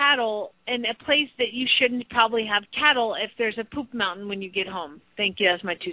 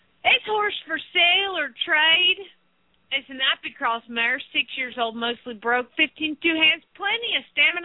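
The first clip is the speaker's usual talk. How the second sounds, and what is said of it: Put-on hillbilly Southern accent. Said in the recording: “in her best hillbilly southern accent”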